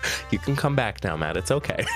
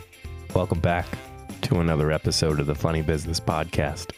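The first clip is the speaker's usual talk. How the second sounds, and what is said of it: Unusually low, put-on voice. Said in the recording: “I'm talking in this random low voice.”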